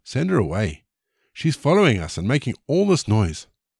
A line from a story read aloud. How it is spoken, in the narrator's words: His disciples begged him